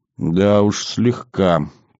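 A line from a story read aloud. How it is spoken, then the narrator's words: Mutter. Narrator (Russian): пробормотал маг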